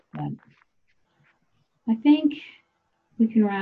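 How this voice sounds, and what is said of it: Usual voice. Nothing is said of it.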